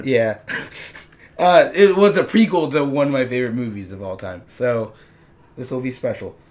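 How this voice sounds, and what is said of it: Hoarse, strained voice. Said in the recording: “I have lost my voice ... for once, he'll actually have normal volume ... my voice would break in the middle of recording”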